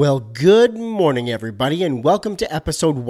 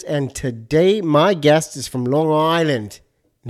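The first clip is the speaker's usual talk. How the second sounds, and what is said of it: Failed Long Island accent, sounds Australian. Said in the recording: “No, that was like Australian. That was awful. ... I can't do the accent. Long Island, New York.”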